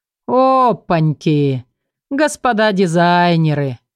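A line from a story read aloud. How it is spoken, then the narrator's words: Mocking drawl. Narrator (Russian): издевательски протянул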